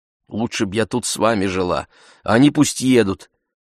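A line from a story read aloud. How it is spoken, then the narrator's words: Plain. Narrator (Russian): сказала она Ифемилу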